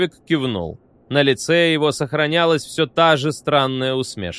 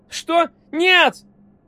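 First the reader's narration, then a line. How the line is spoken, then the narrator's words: Shrill squeal. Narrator (Russian): взвизгнул Висконский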